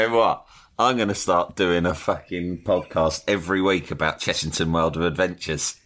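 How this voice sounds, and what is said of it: Usual voice. Nothing is said of it.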